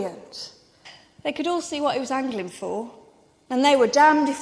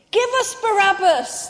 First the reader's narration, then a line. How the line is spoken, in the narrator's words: they shouted